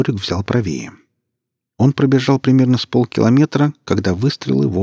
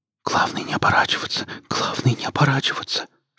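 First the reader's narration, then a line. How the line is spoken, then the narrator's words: Whisper. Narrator (Russian): шептал Жорик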